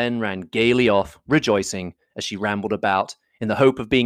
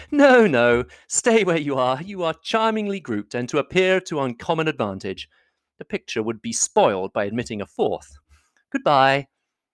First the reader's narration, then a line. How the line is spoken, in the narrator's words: But Elizabeth, who had not the least inclination to remain with them, laughingly answered